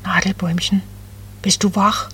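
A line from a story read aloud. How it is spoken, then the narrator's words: Very soft cooing. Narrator (German): Ganz leise gurrte Becky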